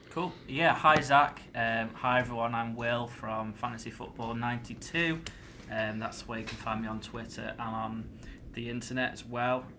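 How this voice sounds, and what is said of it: Whiny northern English accent. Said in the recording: “I've got a worse accent as well. I've got a bit of a kind of like a whiny northern accent”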